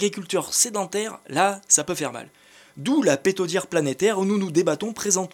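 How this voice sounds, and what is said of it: Usual voice. Nothing is said of it.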